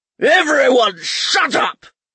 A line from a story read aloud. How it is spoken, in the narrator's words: he bellowed